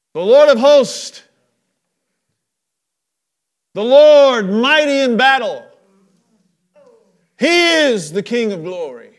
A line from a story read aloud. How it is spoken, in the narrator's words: they start shouting